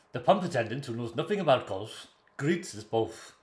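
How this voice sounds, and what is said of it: Put-on Welsh accent. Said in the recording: “Do the Welsh voice.”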